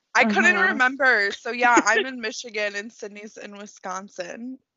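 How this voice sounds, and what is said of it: Michigan (Metro Detroit) American accent. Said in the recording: “I knew I recognized that accent. ... you sound exactly like my friends back home.”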